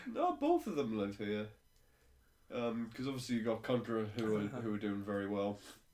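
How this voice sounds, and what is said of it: Congested, blocked-up voice. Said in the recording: “sniffling occasionally, that's me being all blocked up, which is why my voice is a bit rubbish”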